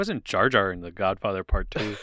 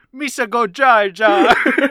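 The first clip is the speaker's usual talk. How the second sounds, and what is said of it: Imitates Jar Jar Binks character voice. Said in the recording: “I'm going Jar Jar.”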